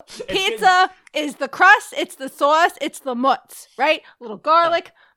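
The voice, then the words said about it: Exaggerated New York accent. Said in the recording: “I'm getting very New York now ... I can hear it like with the sauce”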